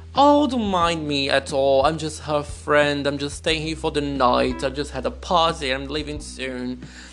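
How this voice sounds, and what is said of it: Exaggerated put-on British accent. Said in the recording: “I just played my best English accent ever. I just went full British.”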